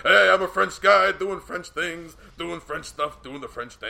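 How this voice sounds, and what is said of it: Imitates another person's voice. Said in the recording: “my Taz impersonation with my voice”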